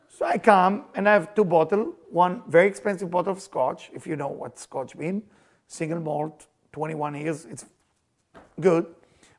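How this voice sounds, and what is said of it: Israeli accent. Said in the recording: “I have accent, I'm Israeli”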